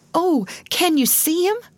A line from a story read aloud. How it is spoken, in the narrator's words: cried Ruth as she clung to Alice